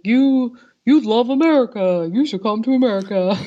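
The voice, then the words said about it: Imitates another person's voice. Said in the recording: “That's a very good impression”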